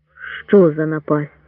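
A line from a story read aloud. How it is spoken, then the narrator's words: Muttering. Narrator (Ukrainian): бурмотів Лейте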